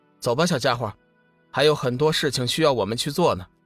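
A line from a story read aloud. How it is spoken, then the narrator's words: Faint smile. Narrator (Chinese): 龙宇淡淡一笑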